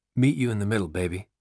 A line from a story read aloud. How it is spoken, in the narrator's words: Jesus whispers to Gary